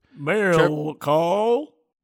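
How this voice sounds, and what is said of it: Cow-like silly character voice. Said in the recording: “what was that voice? ... That was a cow that just learned English. ... it sounded like a cow.”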